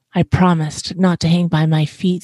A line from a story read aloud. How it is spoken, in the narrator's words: Stella Luna sighed